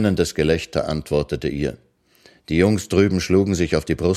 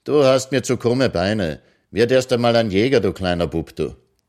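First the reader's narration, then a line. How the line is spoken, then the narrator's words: Called across. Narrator (German): rief sie hinüber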